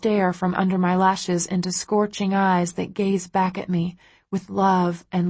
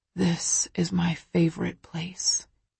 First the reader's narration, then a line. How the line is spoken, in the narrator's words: he whispers